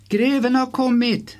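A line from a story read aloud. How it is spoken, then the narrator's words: Calling out. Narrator (Swedish): ropade Ursula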